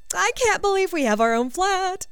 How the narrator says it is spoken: she said excitedly

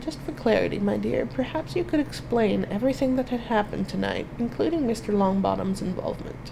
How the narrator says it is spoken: Dumbledore just smiled faintly and said

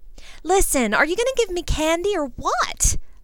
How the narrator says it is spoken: I snapped at him in mock frustration

